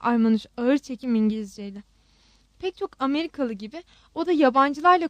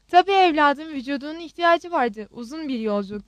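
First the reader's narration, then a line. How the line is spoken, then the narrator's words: Plain. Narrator (Turkish): dedi Zeliha teyze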